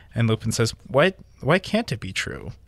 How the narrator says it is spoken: Lupin said calmly, as though they were in class

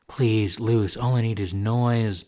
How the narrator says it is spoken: Peyton groaned

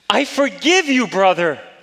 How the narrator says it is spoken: I cried with all my heart

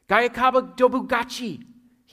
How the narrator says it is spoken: yelled

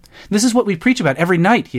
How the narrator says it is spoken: exclaimed, his voice echoing back and forth down the marble hall

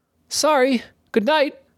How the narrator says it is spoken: shouted Jort

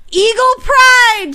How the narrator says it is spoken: she screamed

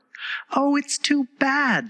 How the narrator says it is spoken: she cried

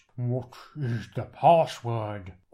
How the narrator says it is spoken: says in a deep voice

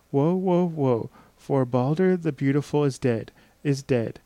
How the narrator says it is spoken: one sad voice cried

